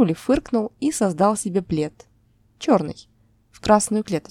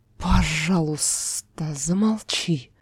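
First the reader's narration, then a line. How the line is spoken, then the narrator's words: Barely audible hiss. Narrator (Russian): Едва слышно прошипел Кроули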